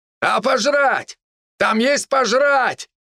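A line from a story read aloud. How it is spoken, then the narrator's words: Loud shout. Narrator (Russian): громко крикнул Гор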